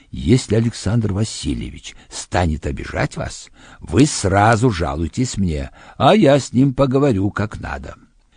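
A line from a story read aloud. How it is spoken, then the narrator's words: Whispered warning. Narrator (Russian): Шепотом он предупредил меня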